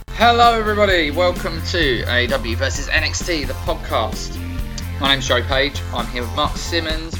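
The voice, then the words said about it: English accent. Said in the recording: “English comedians, I don't know if you can tell that by our accents.”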